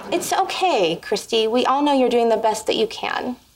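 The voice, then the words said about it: Pitying, condescending tone. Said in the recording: “do the pity voice”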